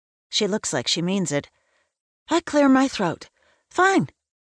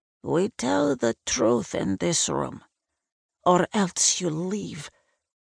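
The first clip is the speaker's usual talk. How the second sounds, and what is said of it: Eastern European accented old woman. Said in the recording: “she has an accent, something East European”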